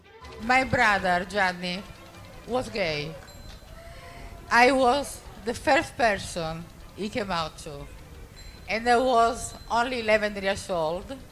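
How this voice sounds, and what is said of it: Heavy Italian accent. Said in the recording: “Heavy Italian accent alert”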